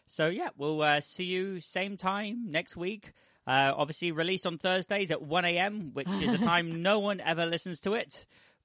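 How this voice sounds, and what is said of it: British accent. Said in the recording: “We do have listeners in the UK, as you can tell from ... accent.”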